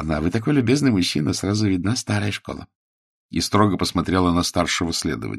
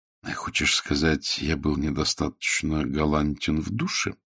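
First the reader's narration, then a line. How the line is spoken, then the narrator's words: Whispered. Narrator (Russian): шепнул Волин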